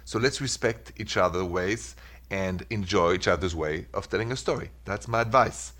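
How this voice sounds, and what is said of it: French-accented English. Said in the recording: “I love the way that you say my name ... Sorry for the French accent.”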